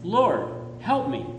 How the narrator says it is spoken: I cried

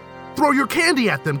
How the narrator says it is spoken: Tug shouted

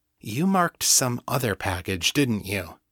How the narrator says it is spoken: asked quietly

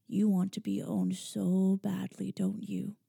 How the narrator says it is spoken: said, his voice a murmur

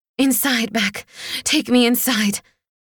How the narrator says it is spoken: wheezed

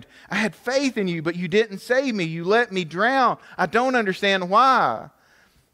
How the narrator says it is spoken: he exclaimed

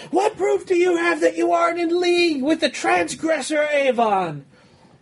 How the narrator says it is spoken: Someone shouts out

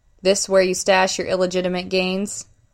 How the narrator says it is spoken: Marquis chuckled

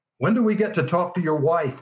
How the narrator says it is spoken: one of the reporters shouted

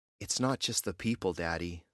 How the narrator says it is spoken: Lizzie said in a whisper

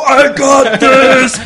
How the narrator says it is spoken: Brenda screams

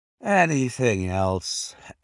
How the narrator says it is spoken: asked Holmes, yawning

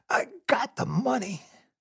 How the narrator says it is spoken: Heinrich wheezed

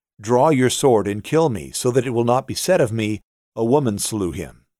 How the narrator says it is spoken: he called quickly to the young man, his armor-bearer, and said to him

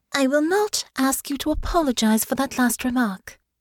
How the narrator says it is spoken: said, her voice calm

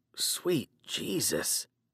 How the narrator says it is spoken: I muttered

